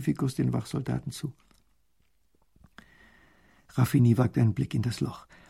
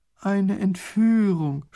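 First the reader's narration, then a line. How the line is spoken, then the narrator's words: Groaning. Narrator (German): stöhnt Raffini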